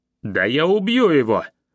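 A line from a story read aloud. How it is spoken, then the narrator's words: Furious shout. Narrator (Russian): закричал Кибанья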